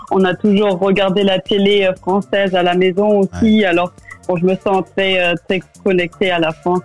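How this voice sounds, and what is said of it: Slight German accent in French. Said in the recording (French): “accent allemand ... Alors on entend ce, petit accent en effet.”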